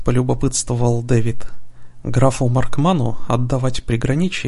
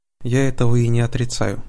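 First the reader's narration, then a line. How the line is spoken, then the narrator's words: Calm reply. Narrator (Russian): спокойно ответил герцог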